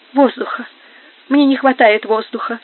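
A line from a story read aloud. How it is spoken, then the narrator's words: Moaning. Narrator (Russian): стонала Инесс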